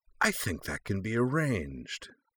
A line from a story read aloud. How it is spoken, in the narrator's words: her face settling into a sly little grin of her own, she replied in her husky, heavy metal voice